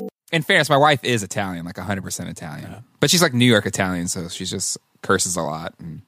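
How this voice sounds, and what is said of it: Usual voice. Nothing is said of it.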